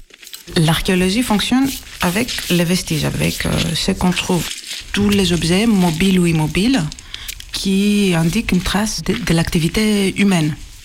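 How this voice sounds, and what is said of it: Greek accent speaking French. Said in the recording (French): “mon accent est grec”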